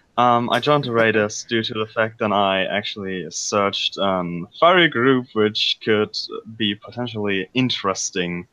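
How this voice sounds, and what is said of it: German accent. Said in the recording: “I'm German. And if you hear something in my accent”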